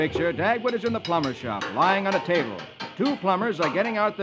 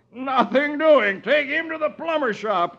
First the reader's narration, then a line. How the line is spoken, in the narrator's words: he yells